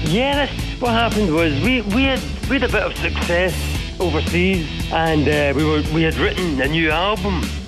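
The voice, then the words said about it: Speaker with a noticeable accent. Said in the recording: “with that accent”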